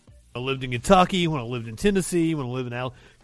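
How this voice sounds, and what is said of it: Appalachian southern drawl. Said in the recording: “It's my southern drawl. ... my accent is a weird mishmash of, you know, this is the Deep South. I'm from Appalachia.”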